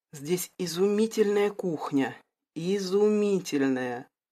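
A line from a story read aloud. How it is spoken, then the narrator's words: Dreamy drawl. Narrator (Russian): протянула Стелла, мечтательно закатив глаза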